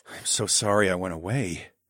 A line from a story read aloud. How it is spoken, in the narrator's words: I murmured